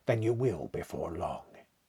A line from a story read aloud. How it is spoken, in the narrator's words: said, very gravely